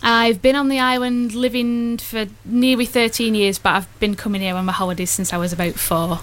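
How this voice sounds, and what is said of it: Northern English Bolton accent. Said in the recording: “I love your accent... I normally don't do northern accents... but I love the Bolton accent.”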